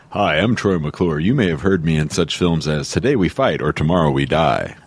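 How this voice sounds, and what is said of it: Deep radio announcer character voice. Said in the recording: “you went deep on that one. It's like you were like doing like your radio announcer voice ... That's pretty actually good. Pretty darn good.”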